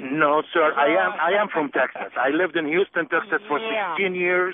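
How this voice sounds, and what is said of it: Egyptian accent. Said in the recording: “that accent of yours doesn't come from Texas ... Egyptian”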